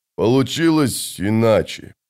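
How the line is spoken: Muttering. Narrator (Russian): наконец пробормотал он

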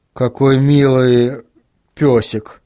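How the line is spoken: Uncertain. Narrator (Russian): неуверенно произнес Вильям

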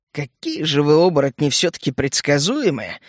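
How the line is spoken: Smirking grunt. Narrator (Russian): хмыкнул я

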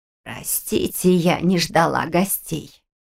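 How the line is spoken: Creaky, barely intelligible croak. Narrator (Russian): проскрипела она, и в ее клёкоте едва можно было различить слова

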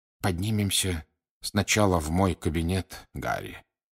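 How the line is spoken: Quiet. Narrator (Russian): тихо сказал директор

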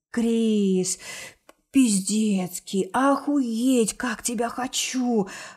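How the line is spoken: Ragged whisper. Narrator (Russian): Рваным шепотом

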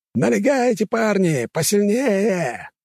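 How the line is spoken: Shouting. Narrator (Russian): орал кто-то из орданцев

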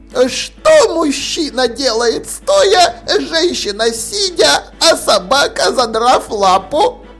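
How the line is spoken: Triumphant squeal. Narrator (Russian): она торжествующе взвизгивала

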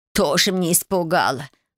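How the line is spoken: Snorted. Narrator (Russian): фыркнула она

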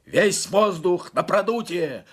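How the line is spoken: Yelled. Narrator (Russian): заорал Загерс

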